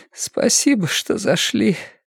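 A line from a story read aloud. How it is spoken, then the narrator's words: Hoarse. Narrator (Russian): хрипло выговорила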